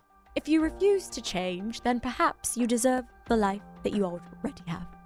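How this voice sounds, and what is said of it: Put-on British accent. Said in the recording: “Should I say the last one in a British accent? ... Maybe it was the accent that tripped me”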